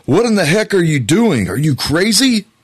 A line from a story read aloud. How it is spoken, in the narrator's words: he yelled out to his friend